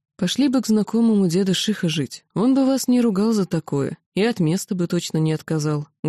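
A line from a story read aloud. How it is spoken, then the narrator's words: Plain. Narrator (Russian): говорит Гордей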